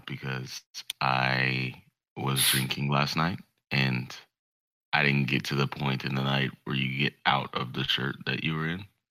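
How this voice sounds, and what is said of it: Tired, hungover-sounding voice. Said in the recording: “you sound pretty tired? ... I am what is known as hungover”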